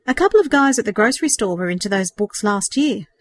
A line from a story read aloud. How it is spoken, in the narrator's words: he said